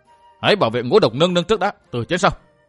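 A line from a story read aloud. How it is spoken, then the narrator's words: Sudden loud shout. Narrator (Vietnamese): Miêu Sở Thiên đột nhiên quát lớn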